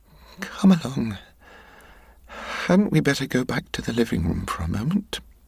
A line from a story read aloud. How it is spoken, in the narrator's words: said, albeit in a quavering voice